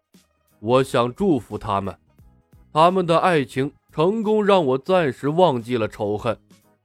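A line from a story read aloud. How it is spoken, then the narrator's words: Deep, grave voice. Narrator (Chinese): 他…沉声道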